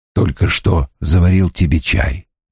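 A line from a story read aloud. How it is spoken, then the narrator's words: Whispered. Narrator (Russian): прошептал Страйк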